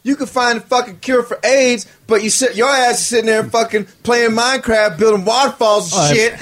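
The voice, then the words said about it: Exaggerated redneck accent. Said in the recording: “sound like a goddamn redneck”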